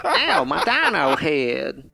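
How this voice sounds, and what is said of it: Funny dinosaur character voice. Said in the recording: “it has kind of a funny voice”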